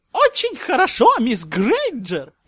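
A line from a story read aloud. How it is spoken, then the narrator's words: Squeaky professor's praise. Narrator (Russian): пропищал Филиус Флитвик, профессор заклинаний и по совместительству декан Коктеврана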